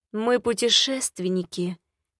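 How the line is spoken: Soft-spoken. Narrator (Russian): мягко заговорил

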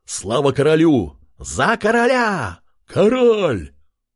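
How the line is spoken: Men shouting joyfully. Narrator (Russian): Мужчины кричали и радовались

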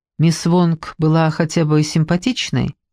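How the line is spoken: Plain. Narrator (Russian): спросил он

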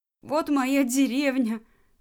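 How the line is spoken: Desperate sobbing cry. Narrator (Russian): отчаянно сквозь всхлипывание выкрикивал

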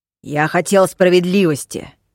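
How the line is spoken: Growling, friendliness gone. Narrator (Russian): зарычал Дош, вдруг растеряв всю свою приветливость

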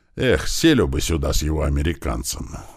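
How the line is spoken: Sighing. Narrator (Russian): вздохнул Слива

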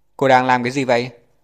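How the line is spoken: Impatient shout. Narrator (Vietnamese): Phẫu thuật viên chính Dương Thành đợi 2 giây thì không nhịn nổi nữa, hét lên

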